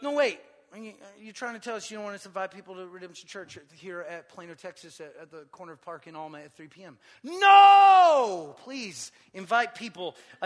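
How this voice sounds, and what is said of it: Raised, loud preaching voice. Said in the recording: “I'm sorry, I've been raising my voice.”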